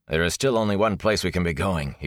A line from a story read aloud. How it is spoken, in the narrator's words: he called, his voice sounding hollow and directionless